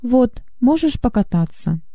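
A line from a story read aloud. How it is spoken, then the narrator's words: Calm statement. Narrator (Russian): спокойно сказал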